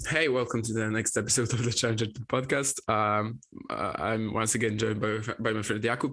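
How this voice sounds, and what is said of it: Slightly off, sick-sounding voice. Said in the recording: “my voice is going to be a bit weird because I'm a bit sick”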